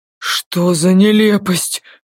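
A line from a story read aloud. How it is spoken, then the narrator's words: Muttered. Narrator (Russian): только и пробормотал он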